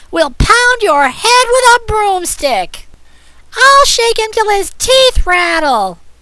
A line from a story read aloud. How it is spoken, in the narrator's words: shrieked Sapphire